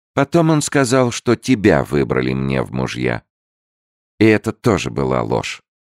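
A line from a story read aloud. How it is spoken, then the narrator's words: Dejected, sinking voice. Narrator (Russian): закончила она совсем упавшим голосом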